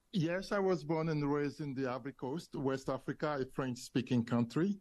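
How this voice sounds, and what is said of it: West African accent. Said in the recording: “I detect my sense is that accent is not South Carolinian, that it's a little bit east of there.”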